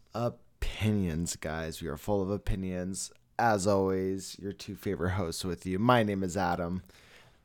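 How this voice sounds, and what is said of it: Tired, groggy voice. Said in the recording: “I'm tired ... I'm groggy. I'm tired. ... You sound a little tired, bro. ... I do sound a little tired.”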